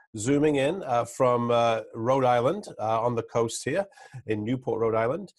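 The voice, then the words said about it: English accent. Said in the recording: “as your listeners will probably hear from my accent, I'm not a native New Englander. I'm originally from the old England”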